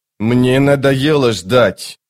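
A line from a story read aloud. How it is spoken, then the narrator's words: Growling. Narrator (Russian): прорычал убийца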